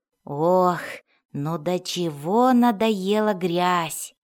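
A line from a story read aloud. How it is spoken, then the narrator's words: Groaning. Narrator (Russian): стонал Фред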